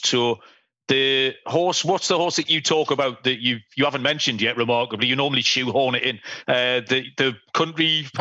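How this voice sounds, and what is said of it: Northern English accent. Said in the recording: “the daft accent. ... I'm in the north of England”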